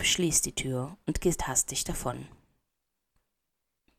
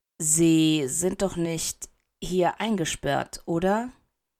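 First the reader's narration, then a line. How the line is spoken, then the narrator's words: Hesitant question. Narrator (German): fragt zögernd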